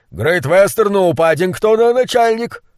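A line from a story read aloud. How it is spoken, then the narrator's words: Shout. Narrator (Russian): Кучер крикнул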